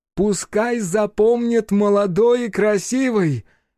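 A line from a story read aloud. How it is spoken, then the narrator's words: Witch shouting. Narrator (Russian): крикнула ведьма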